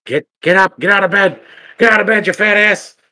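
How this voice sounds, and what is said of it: Yelling Dana Snyder impression. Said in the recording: “it's him yelling ... A really good impersonation”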